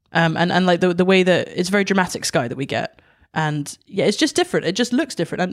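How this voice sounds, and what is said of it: Scottish accent. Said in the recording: “You do sound so Scottish right now.”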